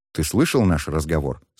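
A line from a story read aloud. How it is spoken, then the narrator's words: Plain. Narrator (Russian): спросил Шен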